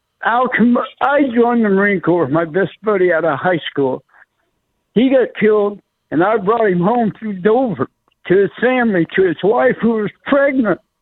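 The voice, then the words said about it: Emotional, choked-up voice. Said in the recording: “I'm a little emotional here”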